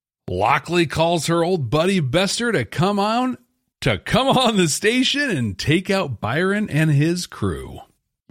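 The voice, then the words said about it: Slight South Carolina twang. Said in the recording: “You got a little South Carolina twang in there.”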